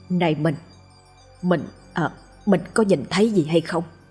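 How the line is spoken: Stammering question. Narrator (Vietnamese): lắp bắp hỏi lại vợ

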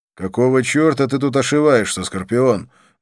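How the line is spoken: Loud question. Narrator (Russian): громко спросил я

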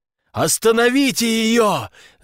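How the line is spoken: Screaming. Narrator (Russian): завопила Вера

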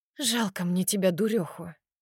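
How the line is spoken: Tired nurse replying. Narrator (Russian): отзывается медсестра устало

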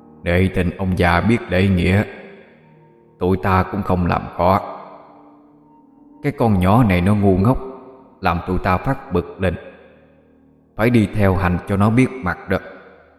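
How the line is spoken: Gruff, deep voice. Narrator (Vietnamese): Nó cất giọng ồm ồm

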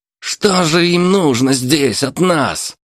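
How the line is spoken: Angry shout masking fear. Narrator (Russian): злобно выкрикнул сварщик, пытаясь скрыть за эмоциями свой страх

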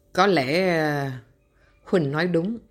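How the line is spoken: Deep, grave voice. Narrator (Vietnamese): Dương Chính Đạo nói với giọng thâm trầm

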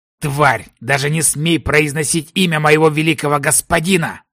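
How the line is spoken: Growling. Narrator (Russian): зарычал блондин

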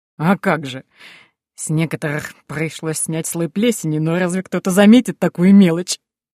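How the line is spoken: Laughing. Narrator (Russian): засмеялся Пол

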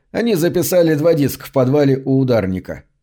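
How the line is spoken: Plain. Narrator (Russian): сказал Джордж

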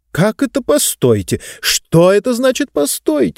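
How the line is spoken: Elderly lady exclaiming. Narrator (Russian): воскликнула пожилая дама

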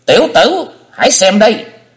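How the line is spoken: Old woman's piercing shriek. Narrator (Vietnamese): Lão bà thét lên một tiếng như xé mày

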